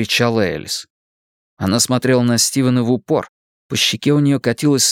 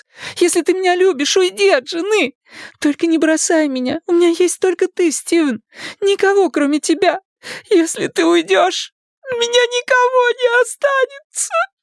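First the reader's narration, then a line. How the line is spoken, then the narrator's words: Loud sobbing. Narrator (Russian): Она рыдала в голос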